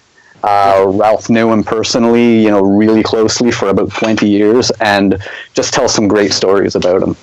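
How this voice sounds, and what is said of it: Canadian accent. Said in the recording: “your accent is killing me. I love it. You Canadian? ... Yeah.”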